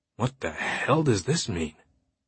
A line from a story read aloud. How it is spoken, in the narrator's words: Langdon murmured